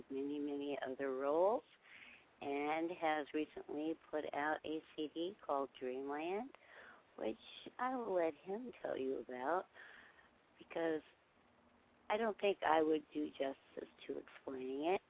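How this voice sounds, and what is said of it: Sore, rough-sounding throat. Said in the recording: “as you can tell, I have a bit of a sore throat.”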